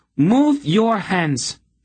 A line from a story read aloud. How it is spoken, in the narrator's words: she commanded in a ringing voice